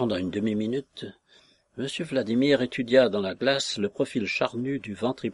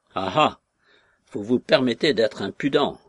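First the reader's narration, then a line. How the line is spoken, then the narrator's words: Growling scolding. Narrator (French): gronda M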